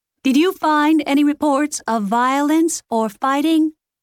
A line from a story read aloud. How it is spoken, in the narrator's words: Lexi shouted at the iPad